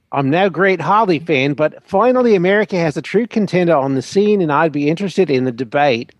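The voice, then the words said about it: Put-on New Zealand accent. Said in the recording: “was that your best Flight of the Conchords accent? ... I think it was absolutely tremendous, darling. It was like you were there.”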